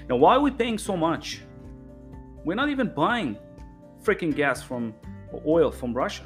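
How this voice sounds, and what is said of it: Speaks English with an accent. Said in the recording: “forgive my accent”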